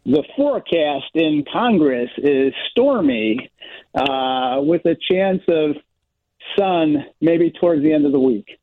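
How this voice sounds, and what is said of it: Tom Skilling weather forecaster impression. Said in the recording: “do their best Tom Skilling impersonation ... Would you care to do a 3-second forecast for us as Tom Skilling?”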